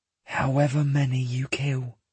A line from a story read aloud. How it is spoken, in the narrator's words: she whispers